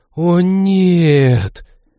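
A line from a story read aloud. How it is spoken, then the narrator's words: Group gasping in unison. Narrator (Russian): дружно выдохнула команда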